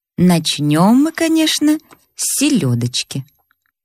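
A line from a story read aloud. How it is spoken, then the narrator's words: Calm, urbane tone. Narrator (Russian): сказал уже спокойным тоном светского человека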